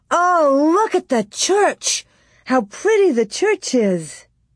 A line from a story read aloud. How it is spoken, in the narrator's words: Laura exclaimed